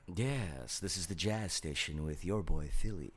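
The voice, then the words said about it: Smooth, low radio DJ voice. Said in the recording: “My voice is a little, you know, little tone right now. ... He's using his sexy voice”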